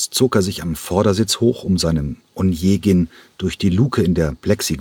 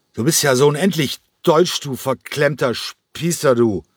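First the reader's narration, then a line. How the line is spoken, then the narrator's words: Slurred, loud. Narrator (German): Cranko lallte noch immer, aber seine Stimme war jetzt laut geworden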